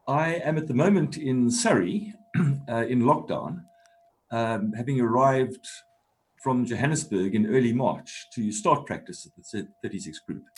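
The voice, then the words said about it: Non-British accent. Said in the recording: “That is not a UK accent.”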